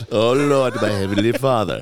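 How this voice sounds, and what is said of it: Put-on English British accent. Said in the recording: “All of a sudden you have like an English British accent.”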